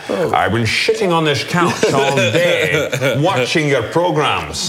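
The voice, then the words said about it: Imitates another person's voice. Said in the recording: “I'm shifting into Sean Connery now ... That's pretty good.”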